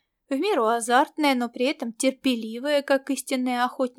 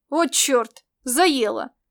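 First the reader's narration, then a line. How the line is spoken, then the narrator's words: Snorting. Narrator (Russian): Элита фыркнула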